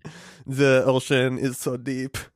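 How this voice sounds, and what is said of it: Imitates another person's voice, French. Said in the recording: “Being French ... my impression of Jacques Cousteau ... Jacques Cousteau parentheses ... impression 17”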